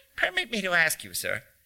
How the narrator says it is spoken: he said in a squeaky voice

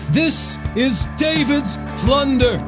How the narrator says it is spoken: the people shouted

